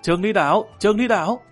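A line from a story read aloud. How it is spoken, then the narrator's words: Joyful group cheer. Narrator (Vietnamese): đoàn thủy thủ reo lên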